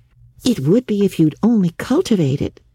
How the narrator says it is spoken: said Anne cheerfully

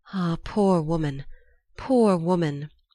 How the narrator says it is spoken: he heard her sigh

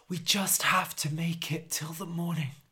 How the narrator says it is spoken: whispered Harold

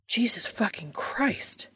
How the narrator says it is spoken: Dean hisses

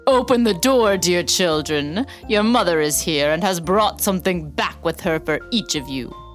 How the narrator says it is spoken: someone called out

